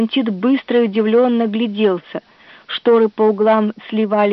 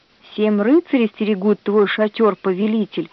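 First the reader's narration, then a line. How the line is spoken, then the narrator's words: Plain. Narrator (Russian): ответил Палантит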